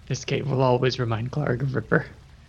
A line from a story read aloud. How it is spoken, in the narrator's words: he says under his breath